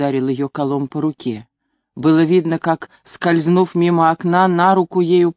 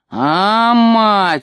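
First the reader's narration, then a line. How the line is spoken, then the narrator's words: Old man's terrible howl. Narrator (Russian): страшно взвыл дед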